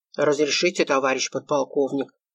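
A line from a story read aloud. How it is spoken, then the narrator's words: Barely audible rustle. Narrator (Russian): Звучало еле слышно, будто шелест бумаги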